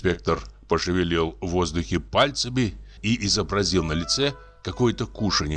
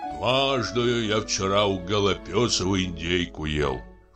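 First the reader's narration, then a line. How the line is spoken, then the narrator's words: Official's sigh. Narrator (Russian): вздохнул помощник исправника Пружина Пружинской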